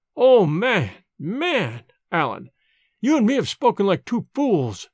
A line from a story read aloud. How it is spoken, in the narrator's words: he cried